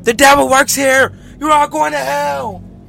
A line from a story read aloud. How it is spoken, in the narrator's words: started yelling